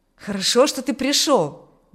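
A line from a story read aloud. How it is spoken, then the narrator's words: Exclamation. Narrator (Russian): воскликнул Аурелий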